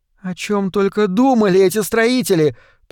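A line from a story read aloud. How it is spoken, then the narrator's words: Moaning. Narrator (Russian): простонала Морена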